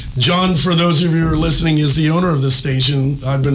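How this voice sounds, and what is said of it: Usual voice. Nothing is said of it.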